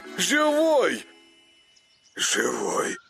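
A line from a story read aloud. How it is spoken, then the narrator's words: Hoarse wheezing reply. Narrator (Russian): Просипел в ответ Коля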